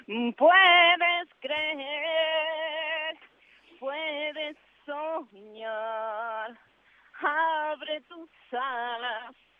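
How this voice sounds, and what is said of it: Imitates another person's singing voice. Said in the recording (Spanish): “¿Tu mejor imitación de Patricia Sosa ahora?”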